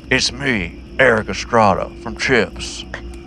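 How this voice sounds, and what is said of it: Imitates another person's voice. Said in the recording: “your impression of Nick Cage”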